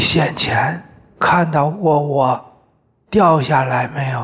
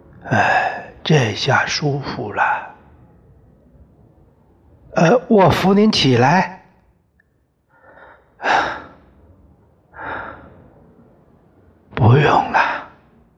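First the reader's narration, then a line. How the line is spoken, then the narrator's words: Father speaking softly. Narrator (Chinese): 我爹…轻声说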